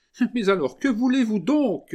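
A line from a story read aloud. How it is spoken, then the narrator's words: Exclaiming. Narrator (French): s'écria Mademoiselle de Valgeneuse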